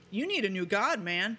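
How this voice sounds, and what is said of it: Twangy California accent. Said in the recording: “She's from California, so she's got that whole California accent-y, twangy thing.”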